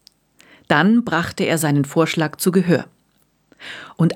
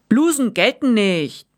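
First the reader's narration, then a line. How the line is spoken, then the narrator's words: Shouted. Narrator (German): rief Weizenwilli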